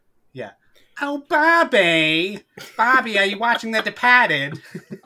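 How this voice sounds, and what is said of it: Exaggerated Bostonian accent impression. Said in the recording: “she has a huge Bostonian accent ... That was a scary impression. Well done.”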